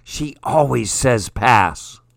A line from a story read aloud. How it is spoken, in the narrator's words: Someone whispers loudly